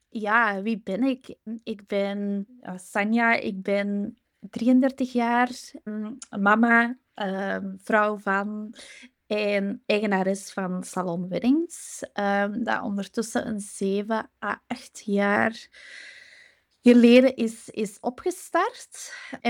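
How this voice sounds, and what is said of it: Strong Flemish accent. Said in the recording (Dutch): “ik kom uit België. Dus sorry voor mijn Vlaams sappig accent.”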